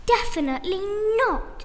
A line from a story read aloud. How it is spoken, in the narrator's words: screeched Freya